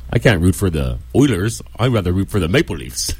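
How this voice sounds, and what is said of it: Put-on Canadian accent. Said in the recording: “That's your Canadian accent? ... It's Saskatchewan.”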